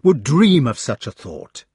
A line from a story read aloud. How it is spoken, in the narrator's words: cried Lancelot fiercely